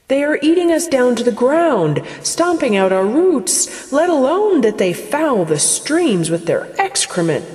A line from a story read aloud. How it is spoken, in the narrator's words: the grasses cried